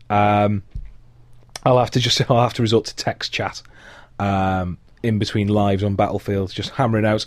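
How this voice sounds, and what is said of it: Hoarse, deep voice giving out. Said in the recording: “my girlfriend described me earlier as sounding like a sad giant... my voice is now on its way to actually giving out entirely”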